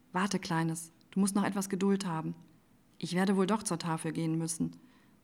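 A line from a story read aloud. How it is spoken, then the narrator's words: Soft sigh, young woman. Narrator (German): seufzte die junge Frau leise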